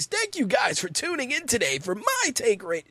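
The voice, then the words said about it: Exaggerated wacky radio announcer voice. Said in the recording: “do my wacky radio voice”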